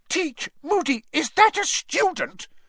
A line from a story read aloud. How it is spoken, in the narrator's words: shrieked Professor McGonagall